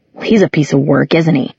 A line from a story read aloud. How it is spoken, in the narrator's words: Simon muttered